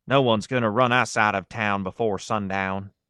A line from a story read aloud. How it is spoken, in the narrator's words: She answered in an exaggerated Western drawl